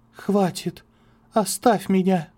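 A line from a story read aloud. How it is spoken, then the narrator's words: Tearful whisper. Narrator (Russian): готовая разрыдаться, шепотом бросила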